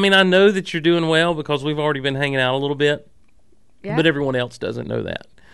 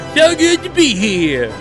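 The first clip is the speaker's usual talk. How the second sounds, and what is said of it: Bad imitation of a cartoon character. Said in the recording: “my bad imitation of Brack on there”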